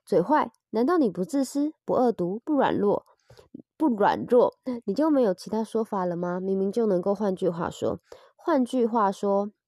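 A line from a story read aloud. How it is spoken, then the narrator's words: Muttering. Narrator (Chinese): 英格丽嘀咕了一句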